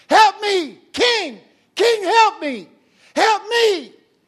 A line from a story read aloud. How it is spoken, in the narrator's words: a woman screaming